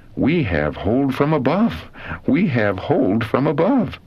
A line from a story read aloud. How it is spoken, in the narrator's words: We then suspended nearly our whole weight upon the cords, exclaiming